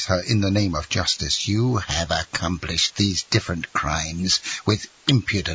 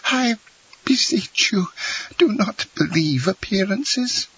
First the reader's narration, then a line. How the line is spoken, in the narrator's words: she stammered